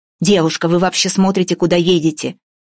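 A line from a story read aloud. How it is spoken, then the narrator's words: Man shouting. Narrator (Russian): закричал высокий мужик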